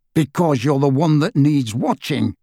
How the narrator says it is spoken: growled Moody

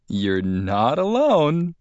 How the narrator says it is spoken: Carlene said with a fake laugh

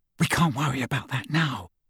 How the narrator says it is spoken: whispered Hermione

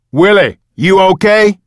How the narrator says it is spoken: Big Mouth yelled from the bottom of the steps

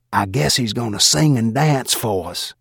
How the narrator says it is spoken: In a whisper just loud enough for me to hear, Stan Atcavage, my banker, said behind me

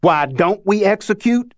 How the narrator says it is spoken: Cleet yelled at the crowd

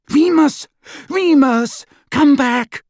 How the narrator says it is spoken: Hermione cried

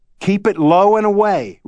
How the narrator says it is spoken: yelled from the dugout

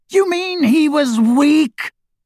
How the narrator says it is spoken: screamed Voldemort

